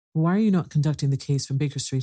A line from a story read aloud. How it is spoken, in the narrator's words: I asked